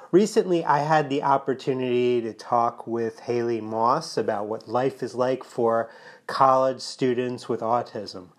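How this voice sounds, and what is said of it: Voice slightly off, congested. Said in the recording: “I'm battling a bit of a cold, so if my voice sounds a little bit off today”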